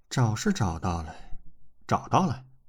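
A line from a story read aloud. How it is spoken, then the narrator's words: Listless, dejected slow sigh. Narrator (Chinese): 娄欢欢 神色有些索然，无精打采地 悠悠叹气道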